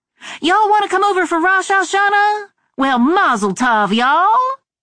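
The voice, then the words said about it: Exaggerated Southern Charleston accent. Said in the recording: “I turned up the accent, which I'd learned to tone down in Washington ... the Yiddish I knew with the Charleston accent turned on high”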